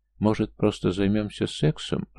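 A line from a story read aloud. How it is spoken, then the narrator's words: Timid suggestion. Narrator (Russian): робко предложила Лиля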